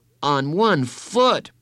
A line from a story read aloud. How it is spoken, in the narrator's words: Bradley exclaimed